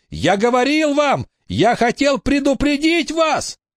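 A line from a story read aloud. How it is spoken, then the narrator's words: Shouted. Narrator (Russian): Билли закричал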